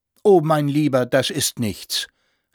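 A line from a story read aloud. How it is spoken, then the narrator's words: Called out. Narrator (German): rief der Senator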